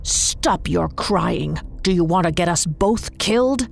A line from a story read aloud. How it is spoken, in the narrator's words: She hissed